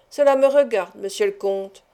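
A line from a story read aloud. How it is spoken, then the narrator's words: Plain. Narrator (French): répondit Andrea Ferrato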